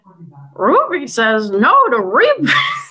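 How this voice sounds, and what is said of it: Terrible Scooby-Doo cartoon dog voice. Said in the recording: “terrible Scooby impression”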